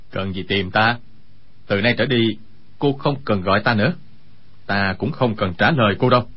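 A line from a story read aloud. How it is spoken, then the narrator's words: Cold speech. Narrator (Vietnamese): Quách Tĩnh lạnh lùng nói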